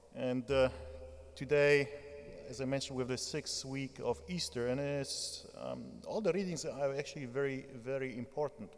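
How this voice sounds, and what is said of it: Polish accent. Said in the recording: “not like my southern Polish accent”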